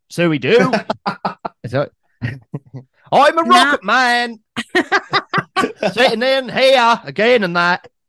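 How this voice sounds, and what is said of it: Put-on Fen accent, singing. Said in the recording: “he speaks with a fluent Fen accent ... So he speaks like that.”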